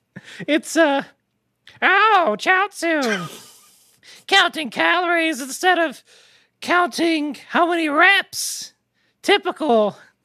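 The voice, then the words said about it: Impression of a character's voice. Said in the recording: “this is Chiaotzu's impersonation of King Kai”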